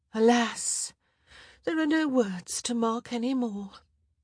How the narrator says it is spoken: Felicity answered with a sad sigh

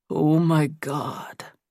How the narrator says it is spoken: Nate said in a low voice

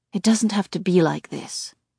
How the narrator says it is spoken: she says softly

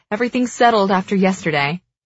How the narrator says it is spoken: she chuckles

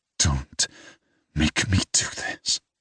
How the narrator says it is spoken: I whisper

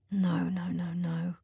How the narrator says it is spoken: Clown murmurs

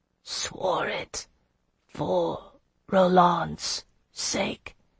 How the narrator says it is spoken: he murmured

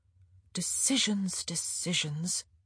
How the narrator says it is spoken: she murmured

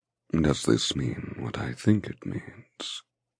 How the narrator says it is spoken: He asks in a thick, husky voice

